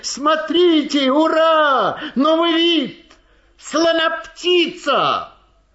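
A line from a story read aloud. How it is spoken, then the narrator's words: Joyful crowd shouting. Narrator (Russian): люди ликовали, смеялись, кричали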